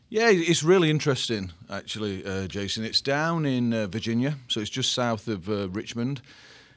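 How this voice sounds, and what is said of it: English accent. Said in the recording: “has an awesome accent... He has an English accent.”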